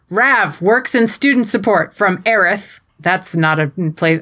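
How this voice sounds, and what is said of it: Strong American accent. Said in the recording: “I'm saying all these place names with a very strong American accent”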